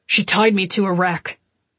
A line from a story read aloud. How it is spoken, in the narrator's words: he said thickly